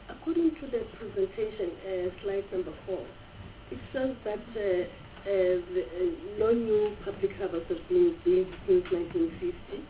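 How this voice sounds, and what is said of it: Sick, flu-affected voice. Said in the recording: “Sorry for my voice, I'm having flu.”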